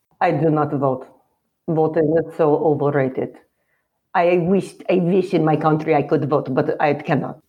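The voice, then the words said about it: Put-on Russian accent. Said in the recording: “Okay, Russian.”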